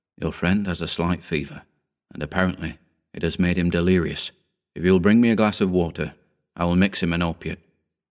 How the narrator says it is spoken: The doctor whispered into my ear

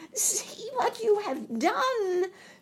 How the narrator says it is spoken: she screamed

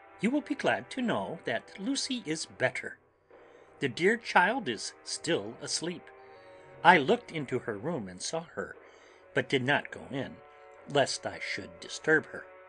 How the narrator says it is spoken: She greeted us warmly and said

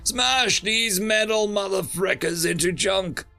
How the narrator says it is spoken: The Terran bellowed

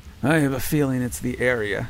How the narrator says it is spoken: Kinder replied with a grumble

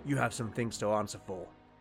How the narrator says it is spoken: Beric growled

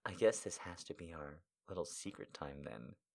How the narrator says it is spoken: she said softly

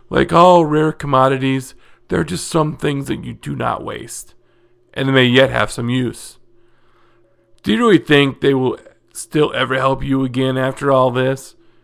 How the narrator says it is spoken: Hedron asked incredulously

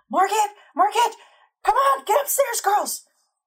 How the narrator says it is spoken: Giles, he's screaming

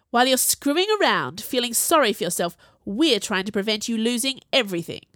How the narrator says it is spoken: Jules growled

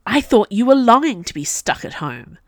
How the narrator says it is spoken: said Cousin Metis impatiently

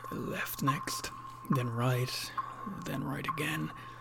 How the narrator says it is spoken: muttering

